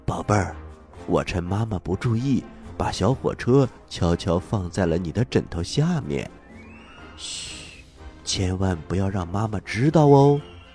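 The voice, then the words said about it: Secretive hushed whisper. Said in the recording (Chinese): “神秘兮兮的小声说”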